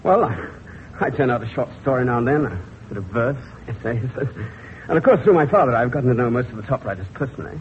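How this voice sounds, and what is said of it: English accent. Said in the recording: “You have an English accent.”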